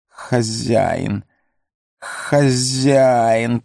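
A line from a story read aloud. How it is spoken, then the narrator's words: Hissing. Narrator (Russian): прошипел он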